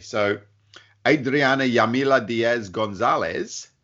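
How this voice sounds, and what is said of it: Put-on accent pronouncing a name. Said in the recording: “Nice accent.”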